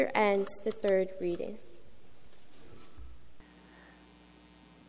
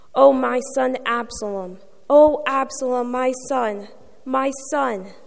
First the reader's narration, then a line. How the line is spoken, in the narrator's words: The king covered his face and cried out in a loud voice